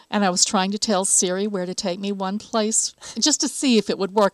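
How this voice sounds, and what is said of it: Southern American accent. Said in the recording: “Is it your Southern accent? ... I think so.”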